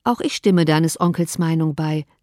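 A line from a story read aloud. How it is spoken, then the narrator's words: Plain. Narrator (German): sagte Mrs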